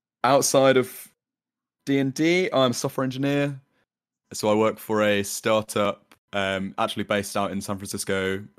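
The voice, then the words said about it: London English accent. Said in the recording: “from London, UK, if you can't tell by the accent.”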